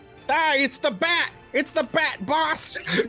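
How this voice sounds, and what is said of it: Cartoon henchman voice, mild Chicago accent. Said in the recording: “Looney Tunes characters ... the mild Chicago accent”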